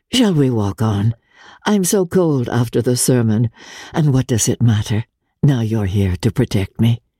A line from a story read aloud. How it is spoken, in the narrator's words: rejoined in a lighter tone